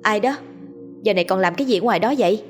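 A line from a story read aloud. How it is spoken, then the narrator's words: Loud brave question. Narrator (Vietnamese): Liên lấy hết can đảm, lớn tiếng hỏi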